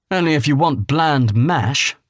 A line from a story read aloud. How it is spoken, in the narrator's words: Rami scoffed